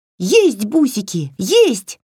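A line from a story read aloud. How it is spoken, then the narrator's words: Yelling. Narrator (Russian): завопила Васька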